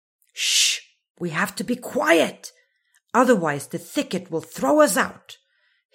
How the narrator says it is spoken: hissed Muffin

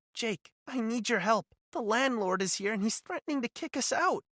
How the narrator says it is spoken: said, her voice trembling

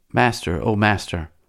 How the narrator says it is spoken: It murmured

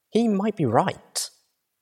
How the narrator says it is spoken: Looking sternly to Velvet Remedy, I whispered back

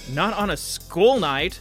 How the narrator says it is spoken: Anne yelled back

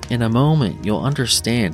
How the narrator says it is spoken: said

